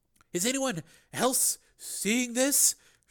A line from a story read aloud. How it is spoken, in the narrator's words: She asked in a shocked voice